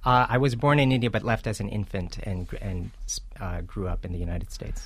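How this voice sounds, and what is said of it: Totally American accent. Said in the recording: “you have a totally American accent”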